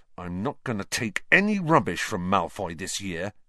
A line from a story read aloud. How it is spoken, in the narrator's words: he said angrily